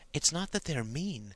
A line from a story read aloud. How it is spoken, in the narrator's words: whispered Sarah more seriously